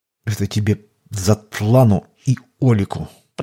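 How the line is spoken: Through gritted teeth. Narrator (Russian): процедил сквозь зубы отец

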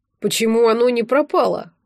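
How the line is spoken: Indignant athlete puffing. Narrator (Russian): возмущенно пыхтел спортсмен

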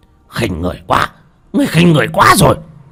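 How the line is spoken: Man's shout. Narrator (Vietnamese): Ông ta hét lên

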